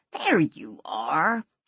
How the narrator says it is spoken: Ian laughed

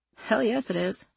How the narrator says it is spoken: she mumbled, still sunk into her phone

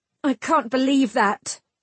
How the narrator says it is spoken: Bronwyn snapped

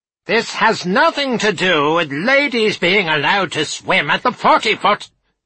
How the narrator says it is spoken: he roared

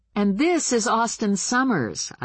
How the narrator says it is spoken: I yelled pleasantly, louder than I needed to, since Samuel's hearing was at least as good as mine

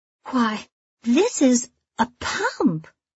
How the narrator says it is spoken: she says with a little surprised laugh

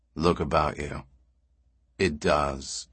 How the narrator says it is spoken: said Rios grimly

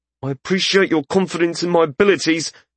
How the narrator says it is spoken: Wesson said through gritted teeth

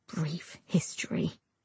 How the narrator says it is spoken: he says quietly with a smirk

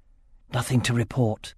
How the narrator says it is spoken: whispered Olbrych

